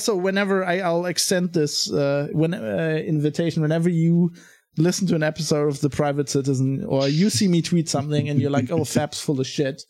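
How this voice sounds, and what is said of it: German accent in English. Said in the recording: “I still have a German accent ... you definitely have a German accent”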